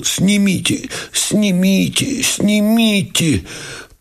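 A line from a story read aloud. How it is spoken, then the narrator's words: Agonized moan. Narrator (Russian): Кипя и корчес, простонал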